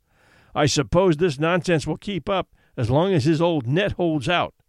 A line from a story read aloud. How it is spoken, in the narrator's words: Charlie grumbled, with intention, in the hearing of several of the Greeks